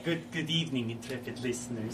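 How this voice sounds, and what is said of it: Put-on accented voice. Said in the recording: “I'm not gonna do the voice the whole time... really good at not having an accent”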